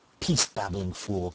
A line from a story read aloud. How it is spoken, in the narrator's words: cried Harvey